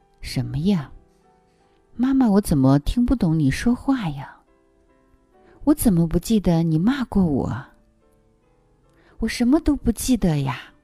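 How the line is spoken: Cheeky, playful. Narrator (Chinese): 小宝嬉皮笑脸的说

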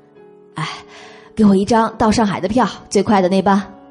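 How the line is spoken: Breathless. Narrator (Chinese): 彭欢喘着粗气

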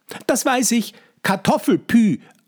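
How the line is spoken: Cheerful answer. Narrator (German): antwortet Johannes fröhlich

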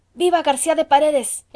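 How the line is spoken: Group of men exclaiming. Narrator (Spanish): exclamaron entonces los españoles

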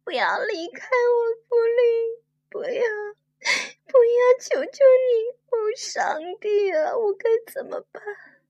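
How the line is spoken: Crying. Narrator (Chinese): 乐佩哭了起来

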